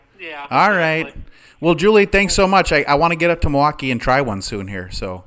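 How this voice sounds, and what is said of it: Wisconsin accent. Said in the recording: “an interesting accent... When I go to Wisconsin, the accent is like it's drawn back out of me”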